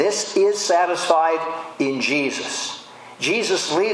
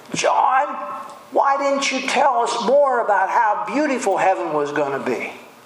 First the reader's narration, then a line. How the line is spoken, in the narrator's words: scream and say